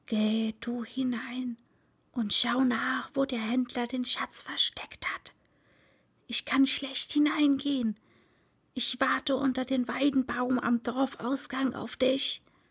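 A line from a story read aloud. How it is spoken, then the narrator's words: Whisper. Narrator (German): Der Hund flüsterte der Katze ins Ohr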